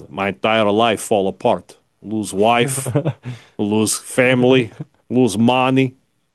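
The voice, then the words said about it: Put-on Russian accent. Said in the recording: “That's a good impression. ... I can do a Russian. I can get the Russians.”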